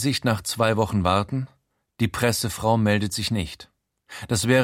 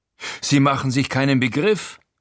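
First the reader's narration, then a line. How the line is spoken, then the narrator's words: Boastful call. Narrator (German): ruft angeberisch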